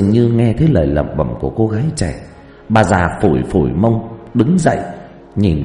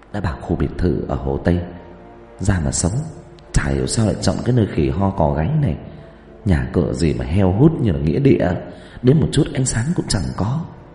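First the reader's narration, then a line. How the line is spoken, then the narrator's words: Muttering while walking. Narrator (Vietnamese): Cô ta vừa đi vừa lẩm bẩm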